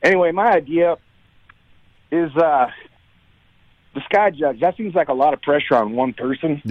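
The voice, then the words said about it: Hoarse, worn-out voice. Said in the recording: “Sorry, my voice is a little shot.”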